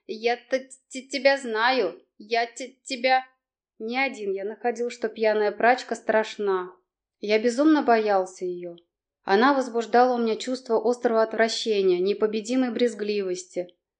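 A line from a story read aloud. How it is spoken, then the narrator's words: Through gritted teeth. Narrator (Russian): Городовой сопел, приговаривал сквозь зубы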